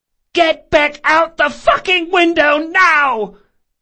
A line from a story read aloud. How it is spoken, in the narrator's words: the woman screamed, punctuating each word with a swift kick